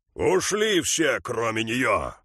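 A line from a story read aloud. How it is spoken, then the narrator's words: Sudden booming chief. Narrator (Russian): неожиданно прогремел вождь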